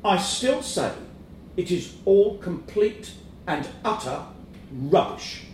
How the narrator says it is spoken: in a measured tone, as if he were underlining every syllable, he said

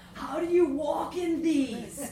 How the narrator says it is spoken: He wailed

